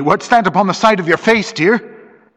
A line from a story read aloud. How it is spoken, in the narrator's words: Her voice was sharp with anxiety